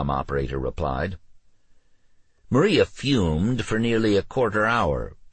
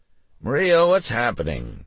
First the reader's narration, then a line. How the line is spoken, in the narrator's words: the President asked, his voice nervous and slurred